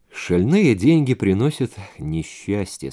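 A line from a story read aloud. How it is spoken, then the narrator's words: Gloomy. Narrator (Russian): сказал мрачно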